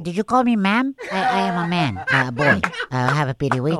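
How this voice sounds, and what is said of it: High-pitched, woman-like sick voice. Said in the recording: “Maybe it's just because I'm a little sick right now. You know, I sound like a woman”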